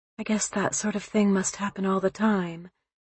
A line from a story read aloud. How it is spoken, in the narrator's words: she said softly